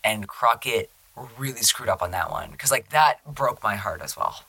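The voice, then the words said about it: Tearful, emotional voice. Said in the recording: “I'm tearing up a little bit, sorry. You can hear it in my voice.”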